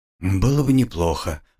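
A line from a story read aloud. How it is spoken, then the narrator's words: Tired agreement. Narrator (Russian): устало согласился мужчина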